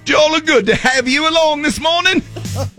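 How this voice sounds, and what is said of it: Put-on British accent. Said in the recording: “talking in a British accent”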